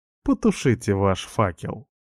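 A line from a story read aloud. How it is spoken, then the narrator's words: Mocking tone. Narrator (Russian): говорит она насмешливо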